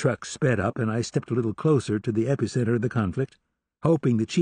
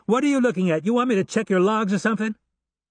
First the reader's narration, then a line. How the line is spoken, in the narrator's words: Lolo Long was momentarily distracted and shouted at the truck driver